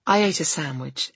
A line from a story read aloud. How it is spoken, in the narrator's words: Eric will murmur into his phone from across the office